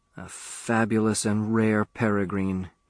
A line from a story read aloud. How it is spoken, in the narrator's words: he mumbled